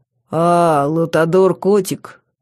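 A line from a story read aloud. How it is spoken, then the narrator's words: Deep bass voice. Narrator (Russian): сказано было густым басом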